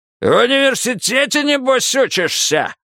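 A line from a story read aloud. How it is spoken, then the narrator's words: Sudden bark. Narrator (Russian): вдруг рявкнул Лебей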